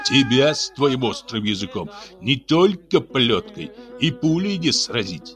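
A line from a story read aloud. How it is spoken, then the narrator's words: Exclaimed through laughter. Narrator (Russian): Сквозь смех воскликнул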